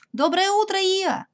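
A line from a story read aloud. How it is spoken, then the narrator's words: Shouting from afar. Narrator (Russian): крикнул Пятачок еще издали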